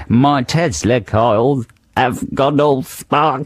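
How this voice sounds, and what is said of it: Slightly Germanic accent. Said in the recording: “I do a sort of Germanic, slightly Germanic accent”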